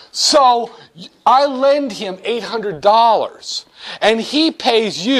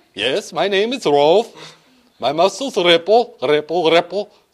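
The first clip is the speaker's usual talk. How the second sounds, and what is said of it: Put-on Swedish accent. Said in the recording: “I can pretend I have a Swedish accent ... Not bad.”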